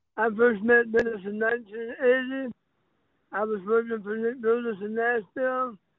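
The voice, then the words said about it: Very unusual, altered speaking voice. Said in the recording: “I've had throat cancer, so I'm not speaking in an unknown tongue. I speak with a very unique accent.”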